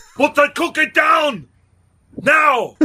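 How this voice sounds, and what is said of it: Arnold Schwarzenegger impression, Austrian accent. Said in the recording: “doing a bad Arnold Schwarzenegger impression ... Maybe he was Austrian”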